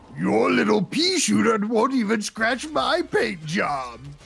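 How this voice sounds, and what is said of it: Imitates a video game villain's voice. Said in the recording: “my Teasel Bon impression”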